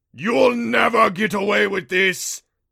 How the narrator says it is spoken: the Rompo shrieked

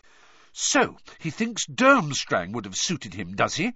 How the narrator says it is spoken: she said angrily

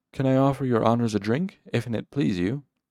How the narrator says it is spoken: offered quickly

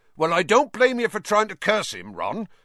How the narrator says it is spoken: said Hagrid loudly over the thuds of more slugs hitting the basin

